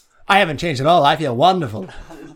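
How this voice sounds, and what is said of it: Put-on transatlantic accent. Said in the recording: “you did a little transatlantic accent there ... kind of like a... Audrey Hepburn”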